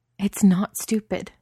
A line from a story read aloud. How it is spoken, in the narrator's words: says fiercely